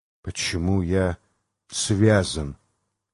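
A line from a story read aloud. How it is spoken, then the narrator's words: Hoarse rasp. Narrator (Russian): прохрипел Джойс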